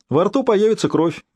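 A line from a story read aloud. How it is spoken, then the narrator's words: Cheerful. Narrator (Russian): весело ответил приятель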